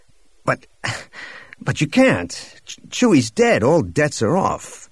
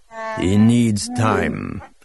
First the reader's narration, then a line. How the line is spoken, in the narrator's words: Atachitkuk growled, somehow without making it sound menacing